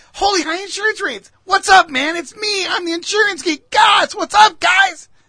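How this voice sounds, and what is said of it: Higher-pitched nerdy character voice. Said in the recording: “I want a Buddy Holly nerdy guy ... obviously I have a deep voice. I'm a manly man. This guy was not”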